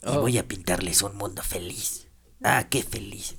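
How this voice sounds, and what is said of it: Imitates another person's voice. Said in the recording (Spanish): “imitación de Bob Ross, una parodia, más bien ... una demostración de la voz”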